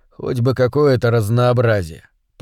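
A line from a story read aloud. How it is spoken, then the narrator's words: Grumbling. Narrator (Russian): проворчал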